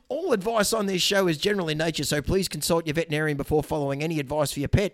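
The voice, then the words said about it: Put-on Australian accent. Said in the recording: “I can do a really good Australian accent ... I thought we were doing Australian accent here.”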